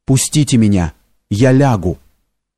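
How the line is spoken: Quiet, repeated. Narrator (Russian): Лось несколько раз повторял тихим голосом

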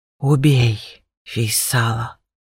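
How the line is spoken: Breathed out. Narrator (Russian): выдохнул он

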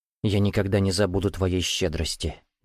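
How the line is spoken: Quiet. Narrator (Russian): негромко произнес Масхуд

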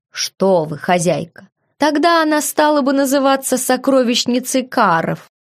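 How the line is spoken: Laughing. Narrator (Russian): Хоук рассмеялся

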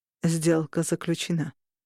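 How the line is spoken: Calm, detached voice. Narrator (Russian): сказал Корнелиус спокойным и отрешенным голосом

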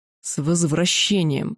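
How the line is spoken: Near growl. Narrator (Russian): практически прорычал он

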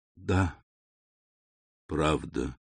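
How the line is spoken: Barely audible. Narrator (Russian): произнес он еле слышно

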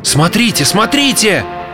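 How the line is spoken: Crowd shouting together. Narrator (Russian): почти разом закричали все

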